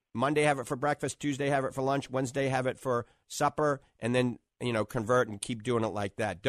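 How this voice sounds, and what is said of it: New Orleans accent. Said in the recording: “that's my New Orleans accent coming out”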